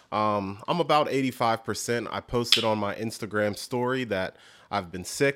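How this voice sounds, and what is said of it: Slightly weird voice from illness. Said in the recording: “my voice sounds a little weird, it's because I'm still a little bit under the weather.”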